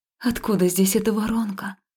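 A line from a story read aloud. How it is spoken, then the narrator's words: Breathless exhale. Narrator (Russian): выдохнула я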